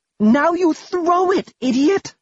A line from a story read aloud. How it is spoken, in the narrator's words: Pastille said urgently